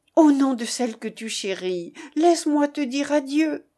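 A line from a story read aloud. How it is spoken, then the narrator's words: Fierce exclamation. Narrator (French): s'écria madame de Raucourt avec une énergie terrible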